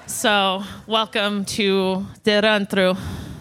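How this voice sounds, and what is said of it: Put-on Russian-style accent. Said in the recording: “That's your Russian? ... What accent is that? We can't place it”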